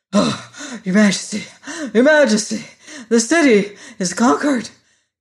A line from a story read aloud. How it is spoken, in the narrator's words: gasped the royal army, who was all out of breath